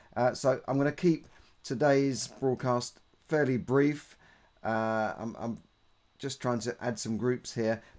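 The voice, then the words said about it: Rough, hoarse voice from a cold. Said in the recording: “I've still got a bit of a chesty cold ... my voice is sounding a bit rough”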